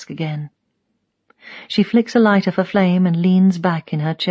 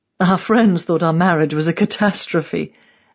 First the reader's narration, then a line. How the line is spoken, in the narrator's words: she laughs